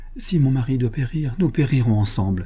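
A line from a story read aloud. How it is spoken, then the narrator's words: Exclaiming. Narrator (French): s'écria-t-elle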